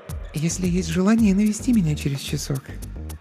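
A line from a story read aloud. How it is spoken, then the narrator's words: Whisper. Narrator (Russian): прошептала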